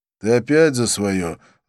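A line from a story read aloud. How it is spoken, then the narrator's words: Sigh. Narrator (Russian): вздохнул я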